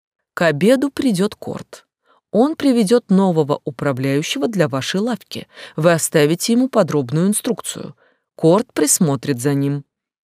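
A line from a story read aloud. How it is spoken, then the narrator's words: Calm answer. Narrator (Russian): Леон спокойно ответил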